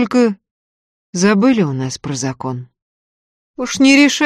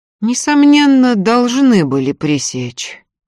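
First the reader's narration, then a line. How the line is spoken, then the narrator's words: Sighing. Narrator (Russian): вздохнул отец Никодим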